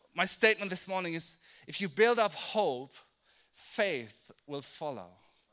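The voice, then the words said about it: German accent. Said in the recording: “the German accent slips out”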